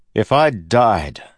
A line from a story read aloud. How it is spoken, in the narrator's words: Kelsier said, loudly